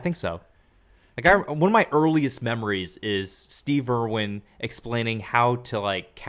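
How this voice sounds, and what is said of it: Usual voice. Nothing is said of it.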